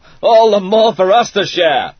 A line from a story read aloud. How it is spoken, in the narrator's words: he cried